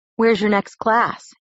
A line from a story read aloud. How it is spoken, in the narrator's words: asked